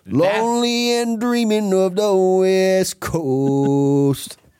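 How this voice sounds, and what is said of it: Sung imitation of a band's singer. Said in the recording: “That's a good Everclear. Yeah, that's a real good Everclear.”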